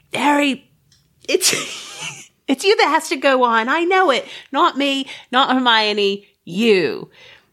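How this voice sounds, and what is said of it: Deliberately bad English accent. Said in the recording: “This is my bad English accent”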